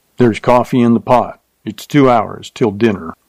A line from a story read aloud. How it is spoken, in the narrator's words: Curtly, he said